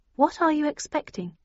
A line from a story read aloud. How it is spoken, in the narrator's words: I asked slightly nervously